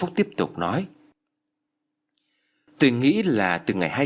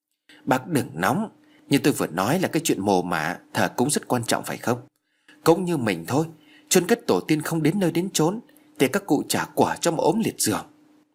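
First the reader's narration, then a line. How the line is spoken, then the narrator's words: Soothing gentle smile. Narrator (Vietnamese): Ông Phúc khẽ mỉm cười rồi vội xoa dịu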